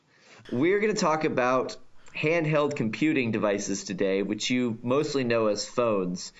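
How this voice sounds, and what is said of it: Congested, deep bass-heavy voice from cold. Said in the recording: “I have sort of a cold. So, if I sound somewhat like a bass heavy monster, that's because my voice is messed up”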